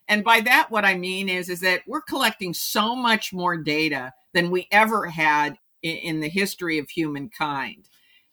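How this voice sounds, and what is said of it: Cheerful upbeat tone. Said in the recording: “you can hear it in my voice that I'm very cheerful”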